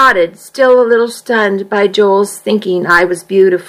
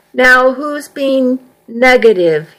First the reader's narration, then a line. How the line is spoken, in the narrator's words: he asked